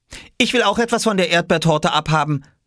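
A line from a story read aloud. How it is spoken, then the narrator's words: Calling out to another room. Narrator (German): rief er in die Küche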